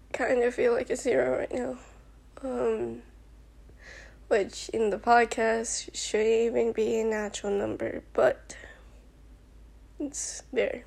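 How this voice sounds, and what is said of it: Emotional, upset voice. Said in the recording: “I'm pretty sure you can hear it in my voice... I'm really emotional right now”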